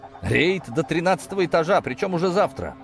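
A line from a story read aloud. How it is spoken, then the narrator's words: Nervous chuckle. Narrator (Russian): нервно хохотнул Ковалев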